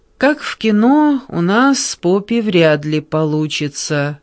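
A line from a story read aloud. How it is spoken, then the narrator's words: Drawling. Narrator (Russian): протянула Меган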